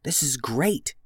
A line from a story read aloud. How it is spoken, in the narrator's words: whispered Beatrice